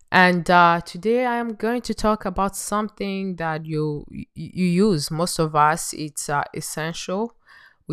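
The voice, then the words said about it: Voice slightly off, sick. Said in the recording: “My voice is a little bit off today because I have some flu type of thing going on”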